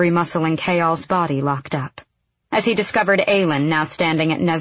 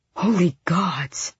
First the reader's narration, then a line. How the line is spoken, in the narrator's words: Ress breathed